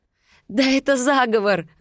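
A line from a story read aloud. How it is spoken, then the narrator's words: Laughing. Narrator (Russian): засмеялась я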